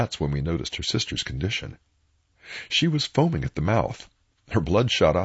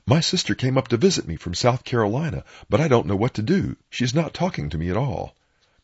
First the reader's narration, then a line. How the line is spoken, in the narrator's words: The lady who was doing the holding said, while gasping for air